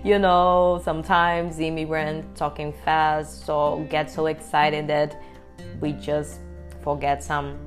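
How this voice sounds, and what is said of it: Non-native English accent. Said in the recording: “you might be recognize my accent. Yeah, I'm an immigrant. So get used with my accent”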